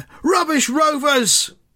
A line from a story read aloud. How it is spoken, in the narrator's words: the shout from behind the goal